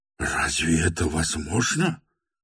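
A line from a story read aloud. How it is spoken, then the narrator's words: Terrified whisper. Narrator (Russian): прошептал чуть не в ужасе Шатов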